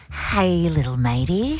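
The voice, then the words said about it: Lowered, creepy doll-like voice. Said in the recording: “I would lower my voice. ... It's Chucky.”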